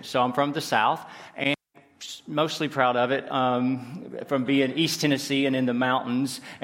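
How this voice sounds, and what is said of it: Southern US accent. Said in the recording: “now I'm from the southern part of the United States, so from anybody that's from the states that are in here, you probably can tell from my accent”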